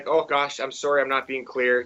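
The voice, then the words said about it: Exaggerated Canadian accent. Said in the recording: “Canadian accent.”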